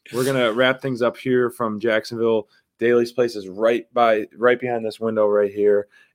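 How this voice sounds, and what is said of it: Strained voice, losing his voice. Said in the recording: “I'm losing my voice too.”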